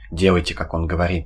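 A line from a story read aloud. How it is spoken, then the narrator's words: Quick. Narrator (Russian): быстро сказал кудесник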